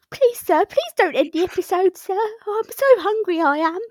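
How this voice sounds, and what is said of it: Little orphan boy character voice. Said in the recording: “my favourite thing is to do like a little orphan boy accent”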